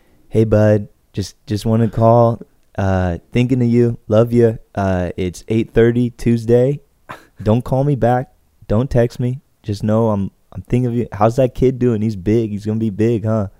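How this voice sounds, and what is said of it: Imitates another person's voice. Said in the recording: “I could do a good Tony. ... That's my Tony.”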